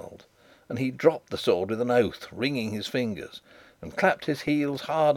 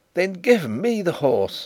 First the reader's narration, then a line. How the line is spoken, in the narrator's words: I cried